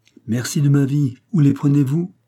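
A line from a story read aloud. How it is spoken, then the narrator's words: Exclaimed. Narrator (French): s'écria Michel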